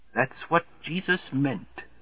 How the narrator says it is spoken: whispers the ghost of Slothrop's first American ancestor, William

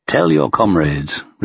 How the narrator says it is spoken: replied Stalin calmly

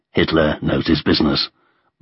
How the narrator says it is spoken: muttered Stalin

